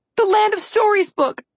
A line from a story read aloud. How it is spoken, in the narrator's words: Alex yelled